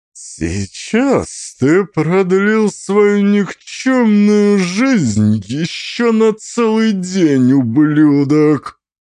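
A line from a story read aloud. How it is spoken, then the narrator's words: Words through clenched teeth. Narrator (Russian): Фон Ляус цедил слова сквозь зубы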